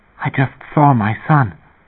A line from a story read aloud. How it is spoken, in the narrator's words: his wife whispered